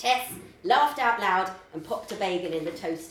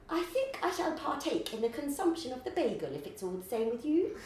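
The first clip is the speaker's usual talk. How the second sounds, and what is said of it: Posh voice imitating the Queen. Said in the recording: “in a voice like the Queen's.”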